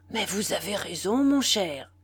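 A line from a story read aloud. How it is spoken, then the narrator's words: Exclaimed. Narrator (French): s'écria-t-il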